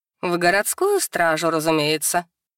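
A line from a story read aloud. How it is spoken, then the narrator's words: Snorting. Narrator (Russian): хмыкнула Дракесса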